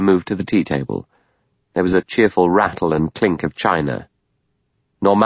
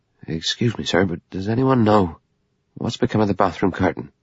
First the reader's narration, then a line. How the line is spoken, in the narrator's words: He said nervously and at random